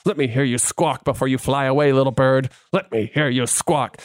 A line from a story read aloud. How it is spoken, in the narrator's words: whispered